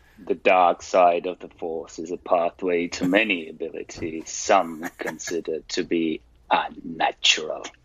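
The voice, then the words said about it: Imitates Palpatine's villainous voice. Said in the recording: “That's a really good impression... that's a really good Palpatine.”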